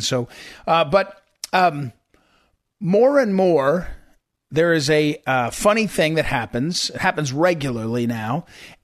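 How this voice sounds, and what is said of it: Strained, affected voice. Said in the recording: “sorry about my voice, by the way. I've got a little bit of a, I think it's allergies.”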